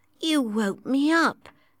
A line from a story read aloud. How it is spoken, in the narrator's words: said sleepily